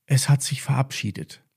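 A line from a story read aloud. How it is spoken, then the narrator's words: Quiet. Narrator (German): sagte Emma leise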